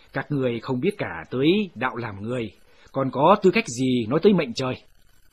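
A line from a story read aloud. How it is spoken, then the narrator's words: Cold sneer. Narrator (Vietnamese): Trương Tuần cười nhạt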